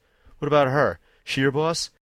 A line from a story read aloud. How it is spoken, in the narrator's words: another laugh, along with a sneer